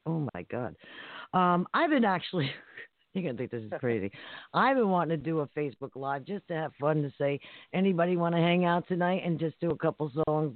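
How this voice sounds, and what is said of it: Hoarse voice. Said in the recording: “I'm really, really hoarse tonight.”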